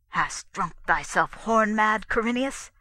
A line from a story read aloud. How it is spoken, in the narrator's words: said the king under his breath, his voice shaken with anger